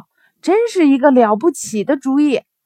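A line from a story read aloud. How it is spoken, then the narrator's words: Loud shout. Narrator (Chinese): 鸭子大喊道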